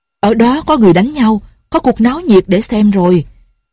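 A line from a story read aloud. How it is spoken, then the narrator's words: Shouted. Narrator (Vietnamese): Lệnh Hồ Xung la lên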